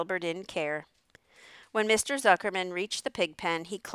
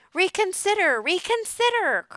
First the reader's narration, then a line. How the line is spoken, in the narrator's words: cried the goose